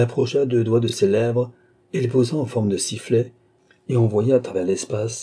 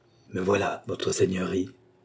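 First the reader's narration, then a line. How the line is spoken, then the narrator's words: Low-voiced reply. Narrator (French): répondit à voix basse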